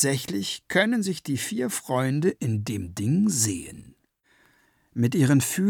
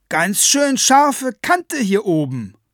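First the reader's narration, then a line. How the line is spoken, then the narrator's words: Calling down. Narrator (German): ruft sie hinunter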